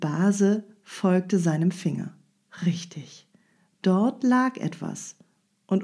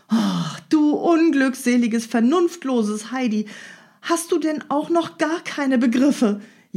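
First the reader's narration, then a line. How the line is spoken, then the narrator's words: Wailing and scolding. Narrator (German): jammerte und schalt Dete weiter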